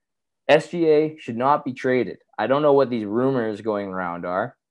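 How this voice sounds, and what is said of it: Hoarse, strained voice. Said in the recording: “I'm sorry I don't have as much energy ... My voice is actually shot. I'm not, I wasn't playing that up”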